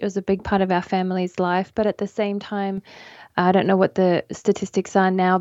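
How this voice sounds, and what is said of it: Australian accent. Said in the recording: “people will gather from your accent, you are originally from Australia”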